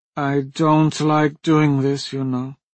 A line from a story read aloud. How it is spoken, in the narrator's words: Vimia said, her tone miserable